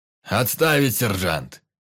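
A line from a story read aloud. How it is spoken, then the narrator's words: Theatrical roar. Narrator (Russian): проревел Сердюков, входя в роль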